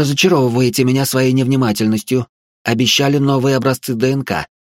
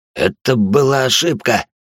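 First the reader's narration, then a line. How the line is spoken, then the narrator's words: Gasping wheeze. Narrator (Russian): прохрипел Сайлор, задыхаясь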